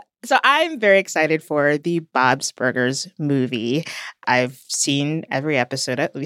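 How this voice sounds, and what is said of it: Usual voice. Nothing is said of it.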